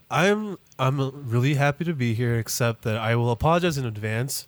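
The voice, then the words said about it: Congested, sore-throated voice. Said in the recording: “My throat hurts. My nose is stuffed. It's allergy season.”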